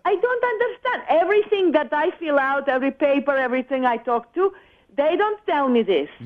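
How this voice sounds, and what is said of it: Colombian Spanish accent. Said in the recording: “that accent ... from. Colombia, was it? ... I just don't want you to have the accent anymore ... the de-accenting class”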